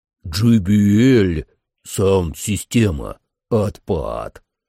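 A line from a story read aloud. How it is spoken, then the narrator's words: Pleased growl. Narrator (Russian): довольно прорычал Кулак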